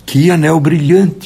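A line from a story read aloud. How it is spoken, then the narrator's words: Exclaiming. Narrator (Portuguese): exclamou o primeiro dedo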